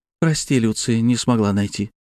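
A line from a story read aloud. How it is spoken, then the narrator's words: Sighing. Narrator (Russian): вздохнула Панова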